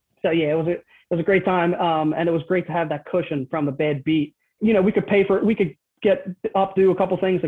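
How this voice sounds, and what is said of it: Delaware County Philadelphia-area accent. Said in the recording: “you can hear the Delco accent probably”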